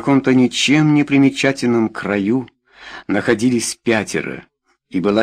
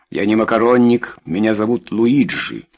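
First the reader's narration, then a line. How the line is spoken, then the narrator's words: Gloomy reply. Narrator (Russian): мрачно ответил 2-й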